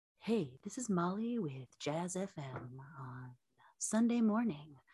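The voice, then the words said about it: Smooth jazz radio DJ voice. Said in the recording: “Do your best jazz radio voice.”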